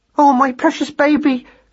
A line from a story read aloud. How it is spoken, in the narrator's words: cried Madeline